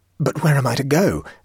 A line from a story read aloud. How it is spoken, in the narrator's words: stammered Stoner, who had caught the infection of the old man's obvious terror